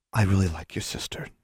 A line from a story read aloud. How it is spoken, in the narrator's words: whispered